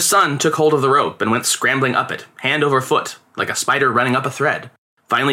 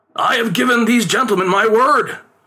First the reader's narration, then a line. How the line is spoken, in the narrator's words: his father pleaded